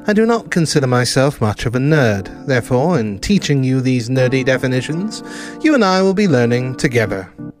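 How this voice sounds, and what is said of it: British accent. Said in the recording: “my phenomenal British accent”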